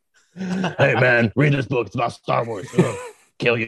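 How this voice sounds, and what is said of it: Mr. T impression. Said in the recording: “I want you to read your audiobook in the Mr. T voice.”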